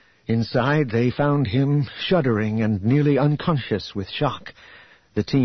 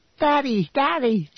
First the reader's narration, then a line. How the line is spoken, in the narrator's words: Jason and Jaina cried